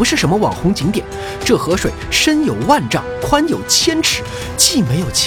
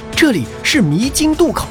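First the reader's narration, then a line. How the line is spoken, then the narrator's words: Hurried. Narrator (Chinese): 警幻急忙说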